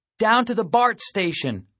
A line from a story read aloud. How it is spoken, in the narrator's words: I hollered